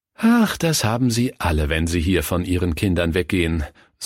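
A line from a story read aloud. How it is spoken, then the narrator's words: Sighed. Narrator (German): seufzte die Diakonisse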